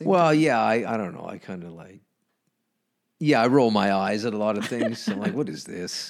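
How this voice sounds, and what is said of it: Amused, annoyed tone with unclear accent. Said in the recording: “you have this accent, but sometimes I don't know if it's an accent ... People think it's I'm Irish and Scottish ... you always sound like you're amused ... you're always amused and annoyed at the same time. Like the tone.”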